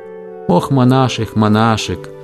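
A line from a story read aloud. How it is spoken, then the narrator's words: Gentle, military commander. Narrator (Russian): говорил ему ласково, один из самых знаменитых военачальников империи Георг Фруцберг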